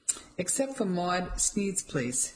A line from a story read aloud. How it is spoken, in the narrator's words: Dad said, laughing